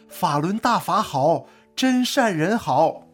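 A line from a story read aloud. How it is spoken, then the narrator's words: Excited shout. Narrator (Chinese): 他激动地大喊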